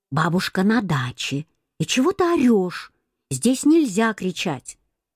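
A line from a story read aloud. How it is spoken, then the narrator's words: Mother whispering. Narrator (Russian): мама говорит шепотом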